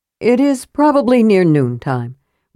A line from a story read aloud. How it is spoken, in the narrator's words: returned Karaman wearily